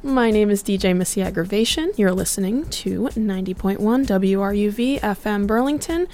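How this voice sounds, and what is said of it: Slightly scratchy voice. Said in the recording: “Excuse my voice, it's a little scratchy this morning.”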